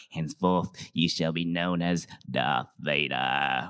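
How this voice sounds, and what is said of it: Impression of Emperor Palpatine. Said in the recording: “Well, I scared myself a bit, right? That was such a good impression”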